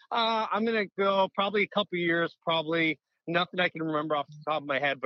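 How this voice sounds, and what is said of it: Slight Canadian accent. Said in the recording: “I heard a little accent. ... there's a little Canada in there.”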